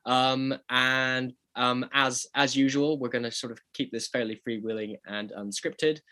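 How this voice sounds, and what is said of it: Voice affected by a cold. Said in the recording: “I've got a bit of a cold, which you can possibly hear in my voice.”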